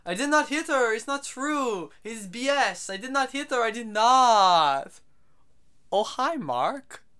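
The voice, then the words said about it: Tommy Wiseau impression. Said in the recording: “impersonation of Tommy Wiseau is very good. It isn't.”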